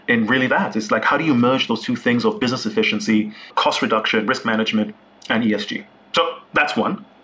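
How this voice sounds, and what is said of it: Excited tone of voice. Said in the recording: “as you can hear from my tone of voice, I'm genuinely excited”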